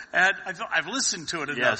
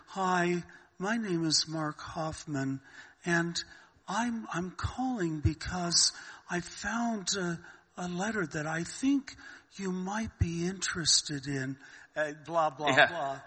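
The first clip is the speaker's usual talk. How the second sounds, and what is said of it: Innocent, aw-shucks impersonated voice. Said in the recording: “kind of an innocent, oh, golly, gee, shucks attitude ... That was a good impersonation”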